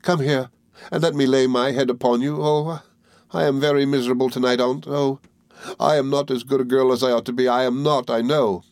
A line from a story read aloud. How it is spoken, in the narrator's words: sobbed Emily